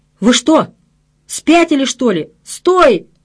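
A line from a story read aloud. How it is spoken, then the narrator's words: Shouting. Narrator (Russian): закричал я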